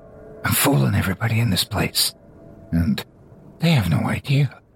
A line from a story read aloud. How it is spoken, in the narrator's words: Drunkish whispers